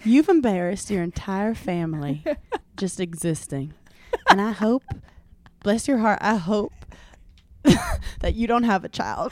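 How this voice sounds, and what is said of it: Imitated Southern accent. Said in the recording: “I was doing Madison's accent”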